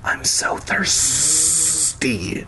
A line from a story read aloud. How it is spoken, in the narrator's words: Gwendolyn hissed like a parcel tongue